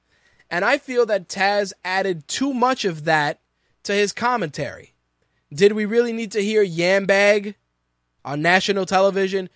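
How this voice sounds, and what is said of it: New York accent. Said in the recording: “I have a quote-unquote New York accent”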